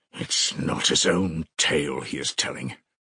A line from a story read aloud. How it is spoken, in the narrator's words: he muttered as though to himself